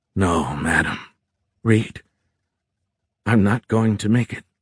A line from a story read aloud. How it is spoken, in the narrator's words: she said, her voice sounding weaker than before